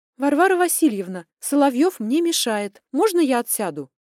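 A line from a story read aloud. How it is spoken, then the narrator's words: Loud question. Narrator (Russian): громко спросила я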